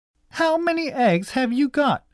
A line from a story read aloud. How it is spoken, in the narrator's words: shouted Cousin Kate